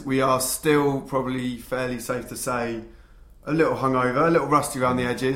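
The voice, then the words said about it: Rough, worn-out voice. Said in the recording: “I can hear how screwed my voice is”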